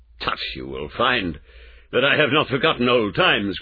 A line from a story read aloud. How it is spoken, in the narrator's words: cried Mr